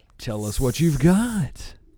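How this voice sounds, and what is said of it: Game show host voice. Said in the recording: “it's not a game show ... you love your game show voice”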